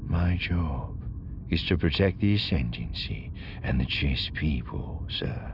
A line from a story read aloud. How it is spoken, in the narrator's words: he said quietly